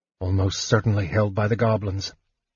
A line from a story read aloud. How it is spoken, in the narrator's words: muttered Sturm